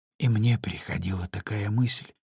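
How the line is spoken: Quiet, sorrowfully surprised. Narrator (Russian): тихо сказала Жюли, и на ее взволнованном лице появилось выражение горестного удивления

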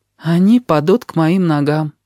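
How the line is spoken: Sad, grasshopper. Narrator (Russian): печально закончил кузнечик

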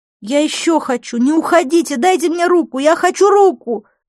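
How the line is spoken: Shouting after someone. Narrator (Russian): закричала я ему вслед

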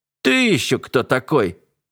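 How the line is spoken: Soldier's bark. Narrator (Russian): рявкнул один из солдат

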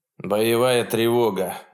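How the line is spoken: Grim. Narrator (Russian): мрачно сказал МакАлистер своему старшему тактику

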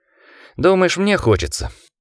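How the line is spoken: Sighing. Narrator (Russian): вздохнул архивариус

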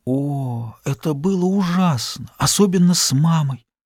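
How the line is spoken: Faint whisper. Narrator (Russian): Близкая к обмороку, она прошептала

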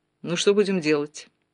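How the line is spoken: Irritated general's question. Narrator (Russian): раздраженно спросил генерал

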